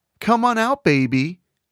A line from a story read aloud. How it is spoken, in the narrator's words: Taylor called out